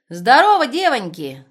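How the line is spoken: Ringing shout. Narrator (Russian): звонко крикнула она

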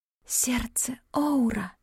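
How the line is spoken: Whispered. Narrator (Russian): прошептала

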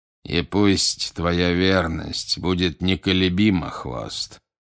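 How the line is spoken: Plain. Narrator (Russian): сказал Волан-де-Морт

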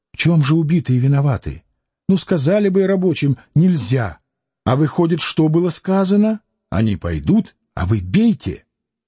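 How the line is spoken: Fervent whisper. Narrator (Russian): он спрашивал горячим шепотом

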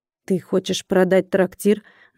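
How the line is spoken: Man forcing words out. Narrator (Russian): выдавил мужчина

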